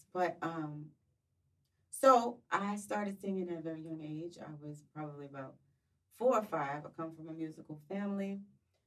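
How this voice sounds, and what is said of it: Slightly hoarse voice. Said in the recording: “excuse me, my voice is a little bit hoarse,”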